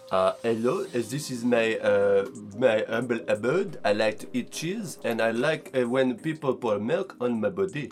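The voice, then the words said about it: Put-on French accent. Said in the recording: “French. I don't even know if I can do a French accent”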